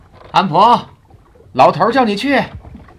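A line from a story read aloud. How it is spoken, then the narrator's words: Shouting down from above. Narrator (Chinese): 拉蒂莫从船首楼口向下喊我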